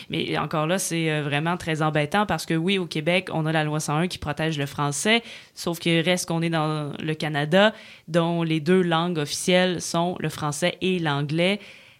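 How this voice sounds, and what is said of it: Québécois French accent. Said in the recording (French): “au Québec ... notre accent”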